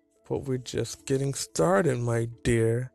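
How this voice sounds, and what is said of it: Seductive voice. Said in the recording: “in a seductive voice”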